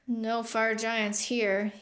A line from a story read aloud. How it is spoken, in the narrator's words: he grumbled